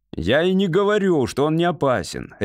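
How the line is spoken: Barked. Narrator (Russian): рявкнул майор

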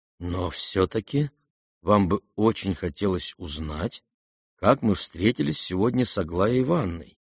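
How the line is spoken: Very calm. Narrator (Russian): весьма спокойно докончил князь

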